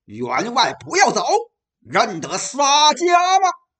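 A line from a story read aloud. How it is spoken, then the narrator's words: Sudden roar. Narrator (Chinese): 猛然听着一声大吼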